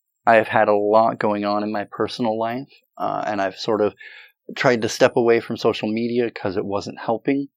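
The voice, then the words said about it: Voice slightly affected by a cold. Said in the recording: “As you can kind of maybe hear in my voice, I spent the last week getting over a cold. ... It don't sound so bad.”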